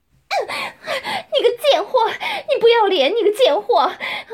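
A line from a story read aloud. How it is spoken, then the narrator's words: Crying, furious. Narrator (Chinese): 夏丽金边哭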